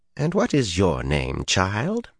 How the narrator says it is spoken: Her tone was pleasant, but it expected an answer and no delay about it

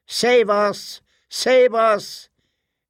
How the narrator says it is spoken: the children cried out

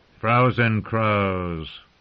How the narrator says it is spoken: Craster sneered

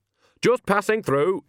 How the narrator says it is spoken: said sharply

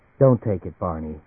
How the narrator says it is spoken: she said quietly

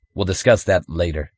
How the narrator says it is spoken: Reinhardt interrupted coldly

